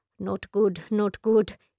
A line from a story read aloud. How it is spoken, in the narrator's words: mutters